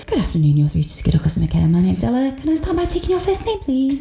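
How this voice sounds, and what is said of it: Polite customer-service phone voice. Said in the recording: “I just straight away went back into my phone voice.”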